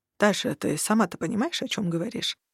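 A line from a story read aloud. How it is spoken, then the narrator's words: Quiet, after a pause. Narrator (Russian): Через несколько секунд тихо спросил Варук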